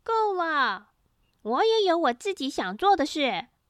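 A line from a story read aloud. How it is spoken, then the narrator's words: Angry roar. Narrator (Chinese): 玻璃听了好生气，大吼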